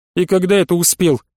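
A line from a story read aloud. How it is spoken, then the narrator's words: Young woman snorting. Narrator (Russian): фыркнула девушка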